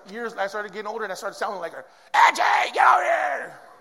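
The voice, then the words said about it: Yelling, imitating another person's voice. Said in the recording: “And that's how my mom sounded when she would call me down the street. ... I didn't know who was yelling at me.”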